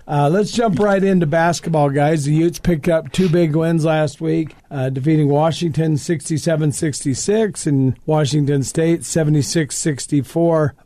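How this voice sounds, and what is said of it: Congested, sick-sounding voice. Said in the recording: “I have a cold”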